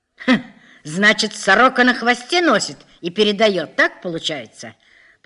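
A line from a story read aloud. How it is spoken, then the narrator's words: Angry shouting. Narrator (Russian): Полковник разозлился, кричал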